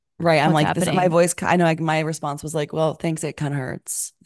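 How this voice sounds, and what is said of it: Hoarse, partly lost voice. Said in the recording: “The second week of my voice being lost, it was like only a little lost, which it kind of sounds like this now. And everyone was like, your voice sounds so cool. It sounds so sexy.”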